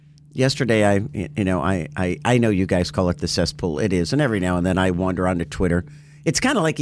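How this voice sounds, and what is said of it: Usual voice. Nothing is said of it.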